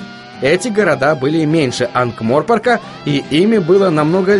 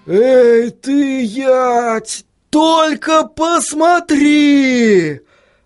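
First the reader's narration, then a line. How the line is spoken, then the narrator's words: Exclaiming. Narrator (Russian): Воскликнул постоянно происходящий тюльпан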